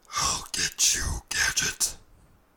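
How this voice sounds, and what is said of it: Dr. Claw impression. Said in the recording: “You can impersonate Dr. Claw from Inspector Gadget”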